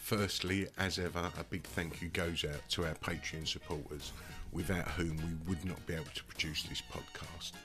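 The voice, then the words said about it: Sore, strained throat. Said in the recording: “As you may be able to hear, I've got a bit of a sore throat,”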